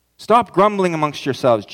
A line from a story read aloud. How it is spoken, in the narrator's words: Jesus answered